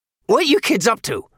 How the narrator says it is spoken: His voice was shrill and strident

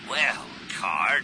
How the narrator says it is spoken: he growled

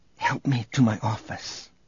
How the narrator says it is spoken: whispered

